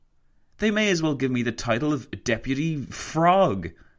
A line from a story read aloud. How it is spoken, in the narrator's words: he exclaimed to Roosevelt